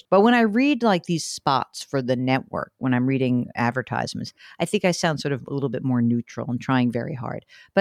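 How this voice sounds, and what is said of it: Slight New York accent. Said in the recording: “do you think I have an accent? ... A little bit. ... a little New York-y? ... Absolutely. ... I'm a lifelong New Yorker”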